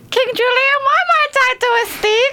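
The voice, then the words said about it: Cartoon character voice impression. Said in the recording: “has got a great impression. ... It's not a hard impression. ... That was quite good.”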